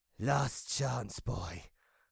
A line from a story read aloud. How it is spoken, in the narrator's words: rasped the creature